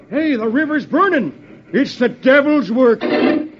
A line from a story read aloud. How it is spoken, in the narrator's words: One of them shouts